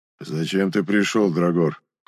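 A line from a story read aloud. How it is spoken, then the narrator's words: Cold giant. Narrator (Russian): холодно спросил антрацитовый гигант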